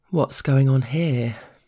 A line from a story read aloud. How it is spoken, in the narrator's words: the boss drawls casually